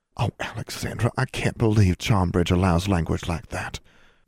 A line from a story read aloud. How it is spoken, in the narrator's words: Julia whispered